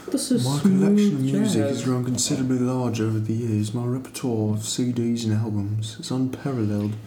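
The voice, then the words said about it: Put-on affected accent. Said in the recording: “You and that wine and that accent.”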